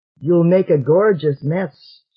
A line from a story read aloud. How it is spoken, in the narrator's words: she said